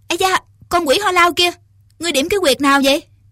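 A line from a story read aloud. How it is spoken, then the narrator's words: Shouted. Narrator (Vietnamese): quát lên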